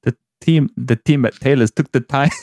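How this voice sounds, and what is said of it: Put-on Scottish accent. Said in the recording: “Imagine that in a Scottish accent as well ... To me, it sounded like Andy Gray off of Sky Sports back in the day.”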